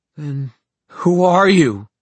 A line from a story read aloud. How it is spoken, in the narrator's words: Libby cried, and her voice echoed with an awful hopelessness, a loneliness as dark and bottomless as a well